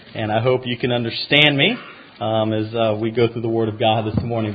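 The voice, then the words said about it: Southern American accent. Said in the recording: “I'm from the South and I have a Southern accent”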